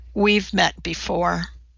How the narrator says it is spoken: said in the saddest voice he'd ever heard

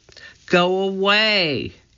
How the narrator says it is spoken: Annie shouted

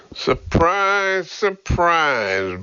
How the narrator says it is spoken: Burke drawled

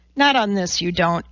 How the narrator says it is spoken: Elizabeth said calmly

